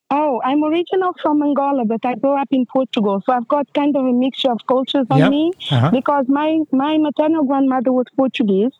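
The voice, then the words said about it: Noticeable non-native accent. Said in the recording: “I detect an accent there”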